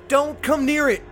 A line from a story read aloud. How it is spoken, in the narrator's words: I yelled